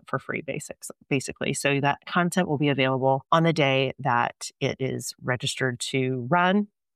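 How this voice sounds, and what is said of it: Hoarse voice. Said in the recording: “my voice is a little bit annoying with the hoarseness that I still have left from my little cold”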